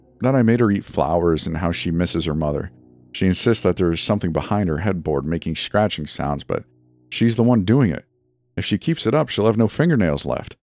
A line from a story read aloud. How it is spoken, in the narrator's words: he said with a sigh